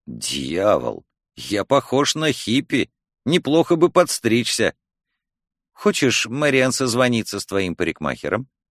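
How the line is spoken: Mutter. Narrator (Russian): супруг пробормотал

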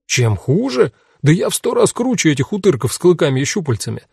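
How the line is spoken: Loud laughter. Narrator (Russian): расхохотался тот

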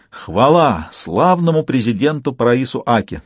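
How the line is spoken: Fervent group exclamation. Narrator (Russian): с жаром воскликнули они

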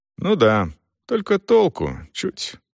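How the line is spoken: Sad. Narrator (Russian): грустно кивнул Селдон

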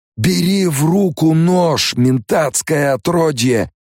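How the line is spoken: Roared. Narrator (Russian): проревел Стилгер

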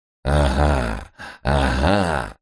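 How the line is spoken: Demon laughing loudly. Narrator (Russian): расхохотался нечистый

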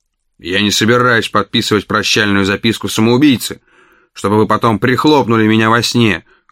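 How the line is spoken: Rough. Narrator (Russian): грубо сказал я

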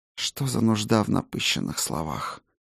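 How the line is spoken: Quiet, weary woman. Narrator (Russian): Негромко и устало отозвалась ночная всадница

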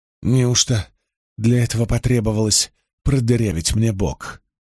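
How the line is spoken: Grumbled. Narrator (Russian): Буркнула Эгвейн

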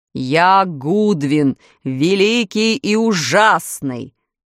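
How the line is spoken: Beast's roar from afar. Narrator (Russian): проревел зверь голосом, выходившим не из пасти чудовища, а из дальнего угла комнаты

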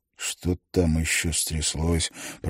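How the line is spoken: Mumbled. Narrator (Russian): пробормотал Лялля

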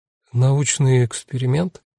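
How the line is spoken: Confused woman's question. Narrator (Russian): растерянно переспросила Жанна

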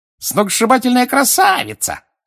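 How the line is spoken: Shrill squeal. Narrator (Russian): взвизгнула Пенси Паркинсон

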